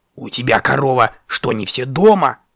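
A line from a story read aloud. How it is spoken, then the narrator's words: Grumbling raven. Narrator (Russian): пробурчал ворон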